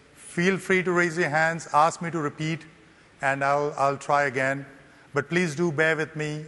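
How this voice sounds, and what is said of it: Indian English accent, American twist. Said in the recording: “I learned the Queen's English in an Indian accent, then spent about 20 years in US, so my accent got an Indo-American twist”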